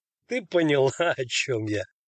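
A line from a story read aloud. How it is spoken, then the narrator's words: Laughing. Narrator (Russian): засмеялся он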